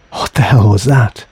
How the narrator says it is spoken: Chris gasp in horror

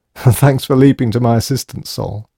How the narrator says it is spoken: he giggled

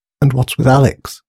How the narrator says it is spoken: muttered Grace

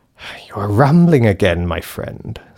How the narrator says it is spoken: sighed the grey man

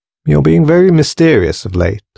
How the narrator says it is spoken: laughed Grace

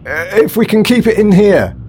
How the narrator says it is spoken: he yelled

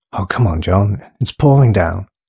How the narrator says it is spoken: sighed Sanders

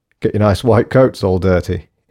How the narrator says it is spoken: he laughed

